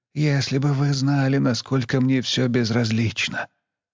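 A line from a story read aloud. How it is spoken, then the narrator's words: Muffled objection. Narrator (Russian): глухо возразил он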